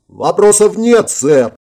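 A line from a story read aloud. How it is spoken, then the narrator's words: Barked in unison. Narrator (Russian): В унисон рявкнул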